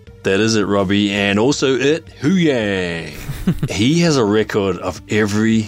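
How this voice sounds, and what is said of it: Usual voice. Nothing is said of it.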